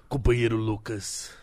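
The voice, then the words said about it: Hoarse imitation of another person's voice. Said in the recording (Portuguese): “imitando o Lula, cara. Fica rouco, mano ... Ele é rouco sempre”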